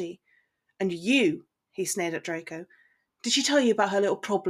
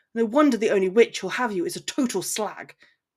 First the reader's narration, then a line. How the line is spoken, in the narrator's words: Draco snapped